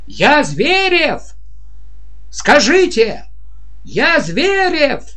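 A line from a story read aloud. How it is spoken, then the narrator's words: Yelling. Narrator (Russian): он орал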